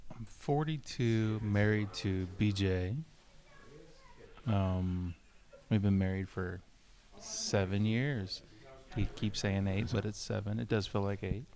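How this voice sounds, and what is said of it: Soft, calm public-radio style voice. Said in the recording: “You've got a good NPR voice. ... I'm gonna need you to own your space.”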